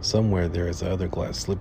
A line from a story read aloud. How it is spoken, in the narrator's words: he said